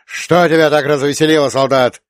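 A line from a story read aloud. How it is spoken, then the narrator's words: Sharp question. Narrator (Russian): резко спросил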